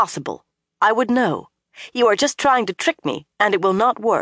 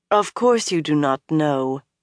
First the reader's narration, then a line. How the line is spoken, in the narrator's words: Moiraine said soothingly